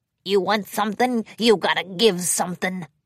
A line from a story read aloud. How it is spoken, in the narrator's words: grunted